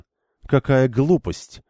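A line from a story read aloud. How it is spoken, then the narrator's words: Icy tone. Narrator (Russian): ледяным тоном отозвалась Шайн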